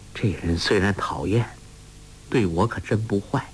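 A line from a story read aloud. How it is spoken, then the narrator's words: Sighing, inner thought. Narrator (Chinese): 黄蓉叹了口气，心想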